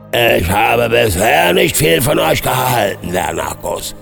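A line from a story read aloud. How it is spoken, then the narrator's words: Giant thundering. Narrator (German): donnerte der Gigant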